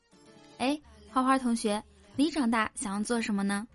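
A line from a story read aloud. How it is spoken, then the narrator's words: Plain. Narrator (Chinese): 花花说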